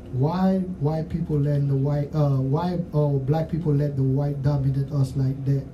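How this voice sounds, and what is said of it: Haitian Creole accent. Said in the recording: “y'all might catch my accent. I'm Creole because I'm Haitian.”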